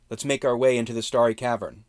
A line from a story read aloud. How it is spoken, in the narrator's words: Mala called out